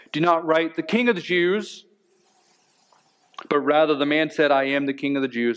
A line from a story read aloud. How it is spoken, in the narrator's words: Pilate said